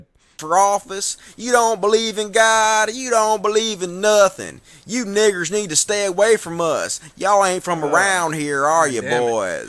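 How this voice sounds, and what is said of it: Southern American accent. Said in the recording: “saying it with my southern accent”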